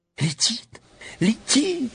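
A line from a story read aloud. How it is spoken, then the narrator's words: Sudden shriek. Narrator (Russian): вдруг взвизгнула Элли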